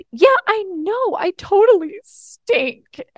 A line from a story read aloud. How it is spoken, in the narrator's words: started crying, sobbing